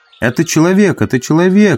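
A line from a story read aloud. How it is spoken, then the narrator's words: Rapid chatter. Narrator (Russian): затараторил мой проводник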